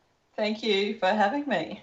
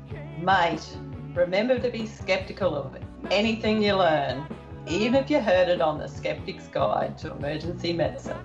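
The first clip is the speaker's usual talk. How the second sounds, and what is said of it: Put-on Australian accent. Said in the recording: “your best Australian accent.”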